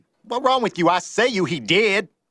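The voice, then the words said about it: Put-on Southern accent. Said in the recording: “That is a far better Southern accent than whatever Brian Kelly just attempted.”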